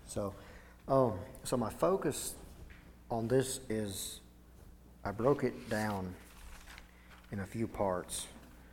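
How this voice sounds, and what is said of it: Strained, failing voice. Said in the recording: “My voice is a little bit trying to fail me”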